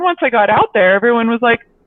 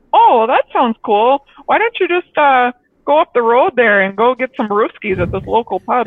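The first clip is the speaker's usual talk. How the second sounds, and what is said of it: Put-on Midwest Minnesota accent. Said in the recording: “that's like a horrible Midwest accent ... that's a great Minnesota accent”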